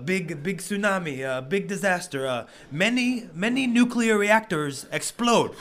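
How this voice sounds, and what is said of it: Broken-English Japanese wrestler impression. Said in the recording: “my best impersonation of, you know, a broken English-speaking Japanese wrestler”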